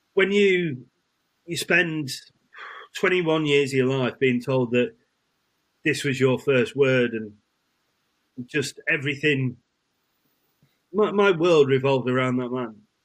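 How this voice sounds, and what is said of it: Choked up, emotional voice. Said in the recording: “I'm getting choked up about it now.”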